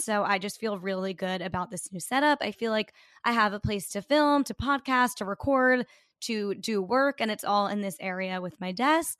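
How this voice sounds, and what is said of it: Raspier voice than usual. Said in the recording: “my voice is raspier than usual ... lose your voice so easily from like one night out”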